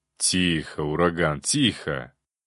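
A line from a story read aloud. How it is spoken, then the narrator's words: Gentle, soothing. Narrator (Russian): ласково сказал граф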